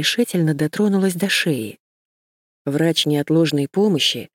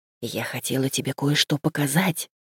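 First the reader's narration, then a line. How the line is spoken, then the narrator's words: Whisper. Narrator (Russian): шепнула мне Сьюзен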